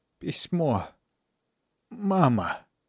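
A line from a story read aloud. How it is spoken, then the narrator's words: Dying stiff-tongued mumble. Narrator (Russian): В последний раз пробормотал костенеющим языком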